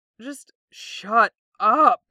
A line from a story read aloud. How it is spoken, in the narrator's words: Zuko moans at them